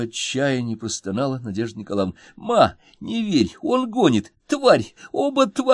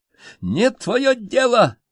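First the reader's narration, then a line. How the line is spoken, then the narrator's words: Shrieking. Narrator (Russian): визжала Инночка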